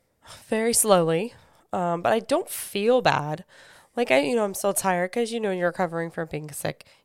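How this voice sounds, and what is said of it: Weakened voice, not yet normal. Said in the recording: “Your voice is slowly coming back. ... getting my voice back to normal”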